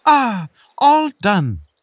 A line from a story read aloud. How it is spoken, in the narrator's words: the beetle exclaimed